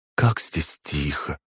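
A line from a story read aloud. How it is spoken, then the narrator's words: Barely audible. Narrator (Russian): едва слышно произнесла Валентина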